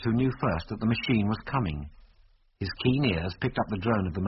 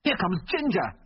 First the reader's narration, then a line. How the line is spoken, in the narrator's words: he yelled desperately